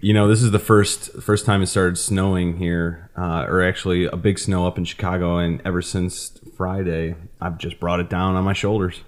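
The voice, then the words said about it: Loud voice, Chicago-Wisconsin accent. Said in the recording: “your voice is louder than us ... that Chicago accent ... your accent, right? ... it's somewhat Ditka. It's somewhat Wisconsin.”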